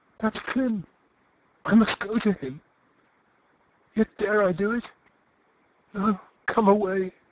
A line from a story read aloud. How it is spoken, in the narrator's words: Eustacia gasped faintly